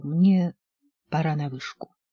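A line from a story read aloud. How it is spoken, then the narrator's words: Hasty startled mumble. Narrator (Russian): Я вздрогнул и, поспешно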